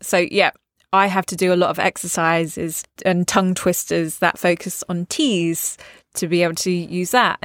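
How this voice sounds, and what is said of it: Natural accent with dropped T's. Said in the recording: “my natural accent, I sometimes drop T's”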